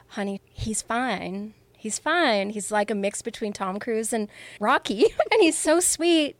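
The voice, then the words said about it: Put-on sweet Southern accent. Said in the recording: “in her sweet Southern accent”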